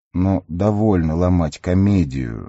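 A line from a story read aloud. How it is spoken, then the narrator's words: Deliberately quiet voice. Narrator (Russian): нарочито тихим голосом сказал Ка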